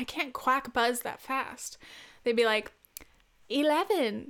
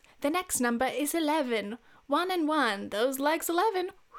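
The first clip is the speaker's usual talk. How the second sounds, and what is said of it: Poor put-on British accent. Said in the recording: “This is a terrible British accent. I will never get better at my British accent.”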